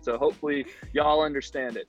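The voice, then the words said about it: Southern American twang. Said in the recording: “I am in Houston, so I'm in the deep south. ... my southern twang.”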